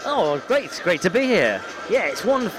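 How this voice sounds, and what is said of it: Polished radio presenter voice. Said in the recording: “my radio voice. I'm classically trained in radio voice”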